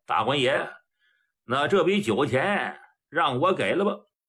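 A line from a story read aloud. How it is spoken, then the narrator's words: Smiling. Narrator (Chinese): 崔掌柜的那笑了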